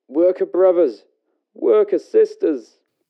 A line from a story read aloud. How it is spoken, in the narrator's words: Again, the Social Democrat cries